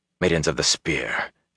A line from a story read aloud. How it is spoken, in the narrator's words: Ingtar muttered